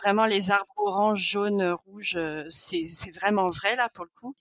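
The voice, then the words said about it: Canadian French accent. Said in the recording (French): “Tu viens faire avec l'accent canadien, là.”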